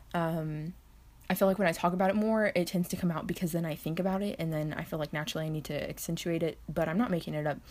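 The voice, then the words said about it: Texas accent. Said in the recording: “Can you try your best Texas accent? Obviously, you hear mine.”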